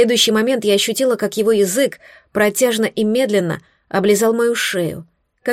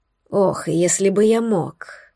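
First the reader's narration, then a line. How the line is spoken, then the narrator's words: Hoarse monk's croak. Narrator (Russian): прохрипел виконт-схимник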